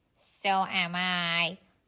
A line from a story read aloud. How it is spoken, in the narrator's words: Franklin grumbled